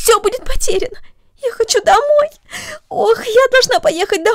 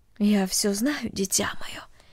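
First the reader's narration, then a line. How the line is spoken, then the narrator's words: Quiet mother. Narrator (Russian): тихо сказала мать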